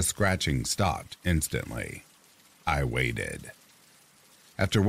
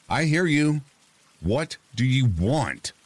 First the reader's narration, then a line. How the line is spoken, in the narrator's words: steeled myself and yelled out